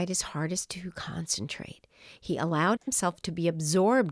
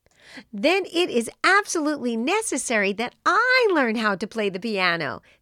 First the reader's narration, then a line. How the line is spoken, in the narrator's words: said Erwin happily